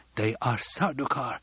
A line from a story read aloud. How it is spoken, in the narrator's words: Hawat whispered